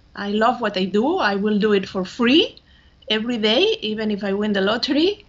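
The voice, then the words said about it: Spanish accent. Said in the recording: “she's from Spain. So that's the accent that you're hearing. ... Barcelona”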